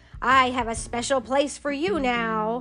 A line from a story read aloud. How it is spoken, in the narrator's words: Aunt Sarah snapped